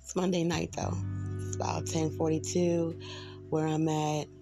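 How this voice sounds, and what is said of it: Hoarse voice. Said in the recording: “I'm a little hoarse ... I was getting over a cold, so it was sounding like real struggling”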